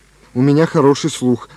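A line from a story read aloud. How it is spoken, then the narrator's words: Plain. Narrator (Russian): сказал Андрей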